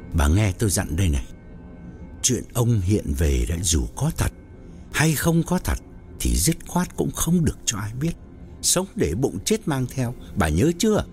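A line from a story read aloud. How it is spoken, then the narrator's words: Lowered, grave voice. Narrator (Vietnamese): Rồi ông hạ giọng nghiêm trọng bảo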